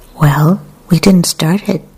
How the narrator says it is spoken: said Adawi

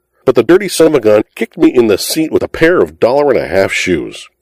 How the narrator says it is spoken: he indignantly howled to the denizens of Allen Street

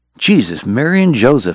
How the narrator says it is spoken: Eddie whispered, pale under his freckles

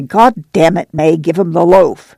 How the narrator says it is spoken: Al said snarlingly

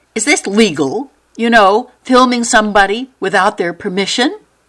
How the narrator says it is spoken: She finally blurted

